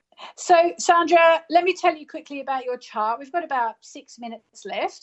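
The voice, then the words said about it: Australian accent. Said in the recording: “I've actually got an Australian accent because I grew up in Australia”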